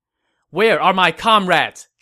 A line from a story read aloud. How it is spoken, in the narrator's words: Zhao Yun shouted